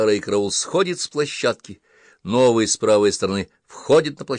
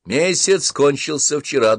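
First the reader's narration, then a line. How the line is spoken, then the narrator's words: Cheerful officer adding. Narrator (Russian): добавил офицер, весело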